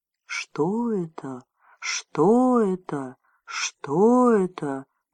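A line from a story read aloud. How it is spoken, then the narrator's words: Eerie echoing whispers. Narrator (Russian): зашептали стены скал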